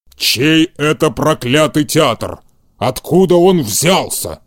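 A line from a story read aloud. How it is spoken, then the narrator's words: Growl. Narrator (Russian): прорычал Карабас-Барабас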